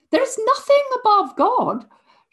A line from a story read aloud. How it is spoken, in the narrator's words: shouted the queen, now thoroughly rattled by him